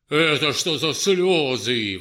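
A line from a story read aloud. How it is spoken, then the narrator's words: Exclamation with loud laughter. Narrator (Russian): воскликнул он и громко рассмеялся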